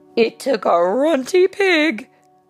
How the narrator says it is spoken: laughed Naughty

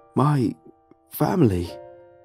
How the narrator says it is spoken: said hoarsely

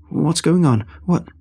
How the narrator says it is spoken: I tried to stammer out a question, feeling breathless

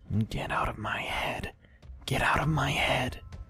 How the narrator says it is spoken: She started to whisper

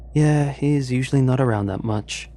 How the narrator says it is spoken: Elsie sighed

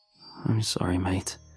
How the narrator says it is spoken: murmur through the window

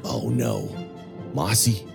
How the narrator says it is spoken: Under his breath, you hear Sordo say

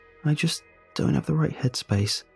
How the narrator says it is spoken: she murmurs to me

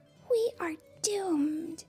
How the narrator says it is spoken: My sister whispered

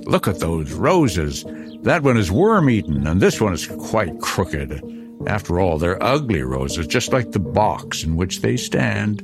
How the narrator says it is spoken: he cried suddenly

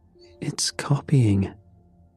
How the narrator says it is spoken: Ethan whispered

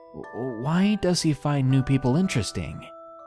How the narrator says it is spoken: Will looked slightly more unsettled than I did when he asked in a stammering voice

